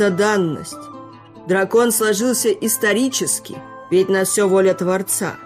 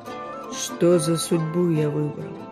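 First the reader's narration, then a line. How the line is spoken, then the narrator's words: Muttering. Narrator (Russian): бормотал Аресид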